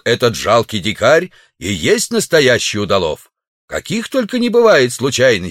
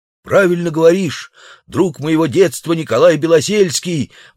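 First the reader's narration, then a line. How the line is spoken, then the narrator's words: Savage exclaiming. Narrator (Russian): воскликнул дикарь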